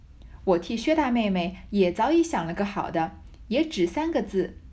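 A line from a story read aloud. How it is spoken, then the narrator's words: Laughing. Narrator (Chinese): 李纨笑道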